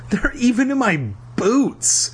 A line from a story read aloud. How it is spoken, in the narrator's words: he wailed